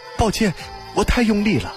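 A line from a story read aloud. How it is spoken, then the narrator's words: Hurried. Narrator (Chinese): 田志忙道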